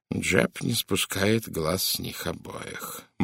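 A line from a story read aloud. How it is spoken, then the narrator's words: Grim reply. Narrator (Russian): мрачно ответил Пуаро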